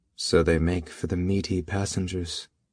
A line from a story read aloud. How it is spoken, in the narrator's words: Memoir said dryly